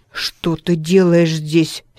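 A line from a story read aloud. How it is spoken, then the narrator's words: Angry question. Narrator (Russian): сердито спросил сквайр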